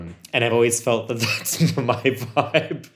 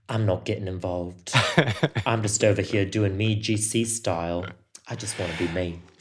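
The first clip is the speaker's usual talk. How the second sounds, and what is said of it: Attempted Essex accent, Gemma Collins impression. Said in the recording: “was that your best Essex accent?”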